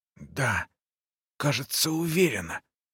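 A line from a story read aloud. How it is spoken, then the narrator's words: Old woman whispering. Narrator (Russian): прошептала старушка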